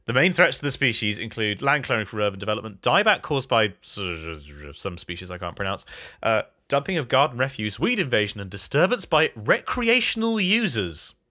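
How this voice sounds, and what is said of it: Congested, stuffy-nosed voice. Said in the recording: “Oh, it's bloody cold. ... Can you hear it in my voice? ... I can, yeah. It doesn't actually sound as bad as I've heard it before, but I can definitely hear that you're a bit... ... I was just so bunged up.”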